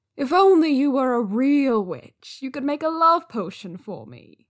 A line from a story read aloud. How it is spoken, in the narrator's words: Wei Ying sighed dramatically, just to rile him up